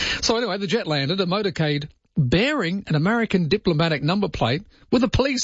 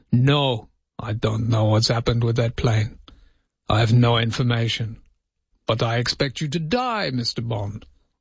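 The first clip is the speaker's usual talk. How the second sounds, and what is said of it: Put-on Russian accent. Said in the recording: “I felt my accent wasn't quite Russian enough”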